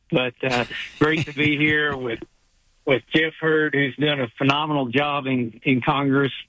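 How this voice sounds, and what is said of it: Strong Southern US accent. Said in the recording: “You may need an interpreter for my southern accent”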